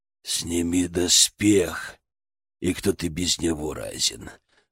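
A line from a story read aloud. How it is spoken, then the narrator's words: Growling. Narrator (Russian): рычал Перун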